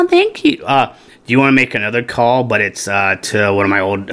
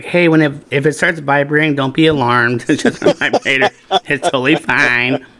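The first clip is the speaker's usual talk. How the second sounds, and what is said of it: Cute girlish put-on voice. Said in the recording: “a kind of a cute girl voice”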